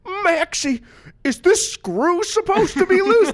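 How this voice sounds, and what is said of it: Imitation of Goofy cartoon voice. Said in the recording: “Not my best Goofy impression. I can do a better one, but right now it's not very good.”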